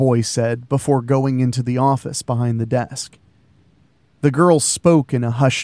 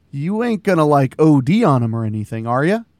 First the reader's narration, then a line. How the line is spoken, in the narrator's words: Jane laughed